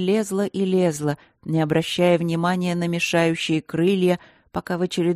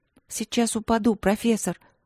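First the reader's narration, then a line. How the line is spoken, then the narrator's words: Desperate whisper. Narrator (Russian): прошептала Алинка, с отчаянием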